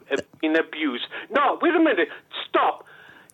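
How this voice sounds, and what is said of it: Angry shouting. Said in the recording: “if you're going to shout at me, I'll just turn you off ... Calm down ... stop shouting at me ... you've come on furious”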